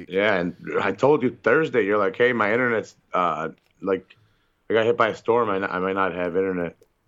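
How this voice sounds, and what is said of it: Strained, hoarse voice. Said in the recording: “I should probably give my voice a rest anyway. It's still not good ... I think I strained it”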